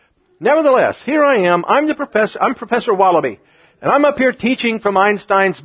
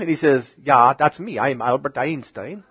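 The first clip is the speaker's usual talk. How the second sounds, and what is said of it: Albert Einstein impression with accent. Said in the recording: “forget the accent”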